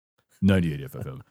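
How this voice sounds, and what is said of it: Deep radio announcer voice. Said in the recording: “This is my deep radio voice. ... I always want to do that voice.”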